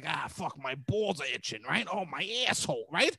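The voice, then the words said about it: Crude Italian-American tough-guy voice. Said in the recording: “I could literally sound like a Gavone, right? Like this”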